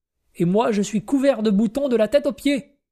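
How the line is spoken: Exclaimed. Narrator (French): s'écria Clou de Girofle

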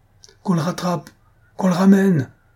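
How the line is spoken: Shouted. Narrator (French): cria M

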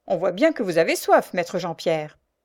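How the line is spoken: Sneering man. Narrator (French): ricana un des archers

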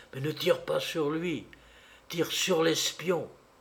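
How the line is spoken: Murmured. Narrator (French): murmura Paul

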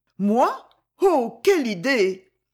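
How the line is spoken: Blushing exclamation. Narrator (French): s'écria-t-elle toute rougissante

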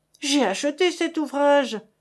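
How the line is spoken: Exaggerated indignant exclamation. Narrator (French): s'écriait Monsieur Save avec toute l'indignation outrancière de la mauvaise foi

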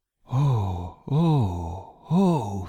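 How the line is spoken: Sighing. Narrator (French): soupira Charity

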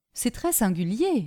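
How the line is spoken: Plain. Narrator (French): dit madame Delmy

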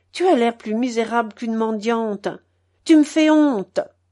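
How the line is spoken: Grumbling old man. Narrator (French): grommelait grand-père

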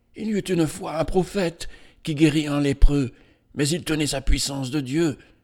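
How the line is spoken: Murmuring widow. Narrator (French): murmurait la veuve

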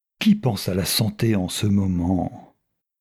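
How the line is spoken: Grumpy. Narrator (French): répondit le comte d'un air grognon

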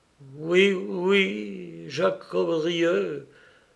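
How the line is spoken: Stammering young man. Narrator (French): balbutia le jeune homme

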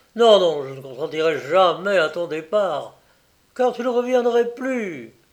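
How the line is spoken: Distressed exclamation. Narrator (French): s'écria le roi désolé

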